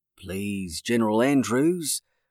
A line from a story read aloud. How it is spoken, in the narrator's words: said calmly